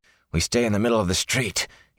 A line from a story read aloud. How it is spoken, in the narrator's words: he said hoarsely